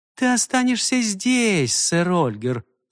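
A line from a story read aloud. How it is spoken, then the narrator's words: Gentle. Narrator (Russian): ласково сказала она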